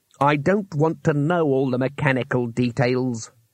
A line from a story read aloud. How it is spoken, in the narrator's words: growled Trymon